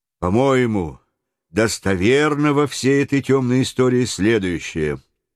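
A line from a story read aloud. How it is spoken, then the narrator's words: Steady calm voice. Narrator (Russian): ответил майор своим неизменно спокойным голосом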